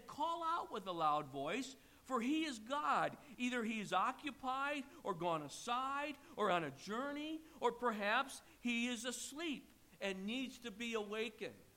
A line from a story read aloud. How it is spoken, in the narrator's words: Elijah mocked them and said